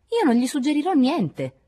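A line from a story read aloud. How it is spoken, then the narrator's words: High-pitched voice. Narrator (Italian): disse con la sua voce più acuta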